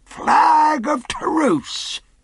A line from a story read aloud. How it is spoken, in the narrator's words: cried Silver